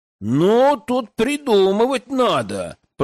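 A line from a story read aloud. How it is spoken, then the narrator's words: Drawled. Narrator (Russian): протянул парень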